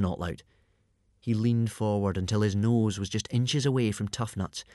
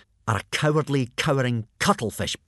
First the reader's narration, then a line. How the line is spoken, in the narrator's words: spat out with savage contempt